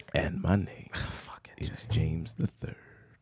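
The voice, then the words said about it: Announcer voice. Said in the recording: “that's my announcer voice”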